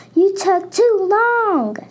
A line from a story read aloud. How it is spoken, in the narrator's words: screamed Scarlett